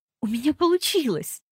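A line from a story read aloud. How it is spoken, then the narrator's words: Involuntary exclamation. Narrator (Russian): невольно воскликнула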